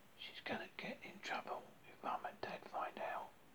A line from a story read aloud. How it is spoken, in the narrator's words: Mark whispered